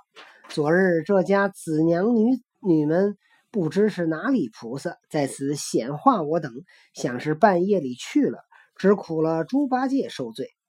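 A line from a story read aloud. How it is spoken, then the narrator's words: Laughing. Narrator (Chinese): 行者笑道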